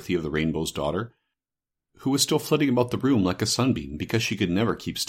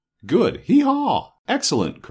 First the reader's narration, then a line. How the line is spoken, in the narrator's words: cried Kick-a-Bray, much pleased